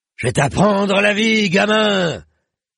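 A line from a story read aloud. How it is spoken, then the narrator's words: Nearby unseen roaring. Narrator (French): rugissait le grand bâtard tout près et pourtant hors de vue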